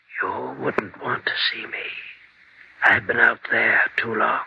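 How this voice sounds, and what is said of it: Whispering voice. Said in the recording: “Why are you whispering?”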